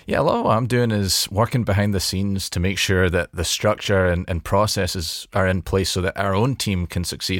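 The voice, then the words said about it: Scottish-sounding accent. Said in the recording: “just a bit north of the border and you've got yourself some variety in the mix ... I sound like Shrek ... not perhaps the most endearing accent”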